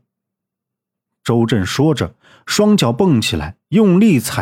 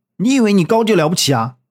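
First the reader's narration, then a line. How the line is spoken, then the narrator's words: Angry. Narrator (Chinese): 怒道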